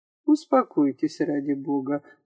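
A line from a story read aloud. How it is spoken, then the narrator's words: Gentle and quiet. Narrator (Russian): ласково и тихо сказал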